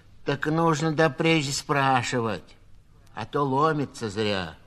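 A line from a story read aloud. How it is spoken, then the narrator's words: Said rudely. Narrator (Russian): грубо сказала сиделка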